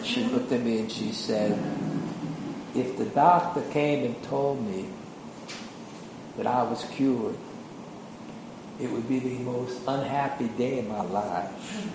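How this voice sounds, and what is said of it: Put-on accent, admittedly not good. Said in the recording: “forgive the accent, ... It's probably not a good one”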